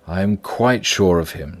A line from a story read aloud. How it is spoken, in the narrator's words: replied Jekyll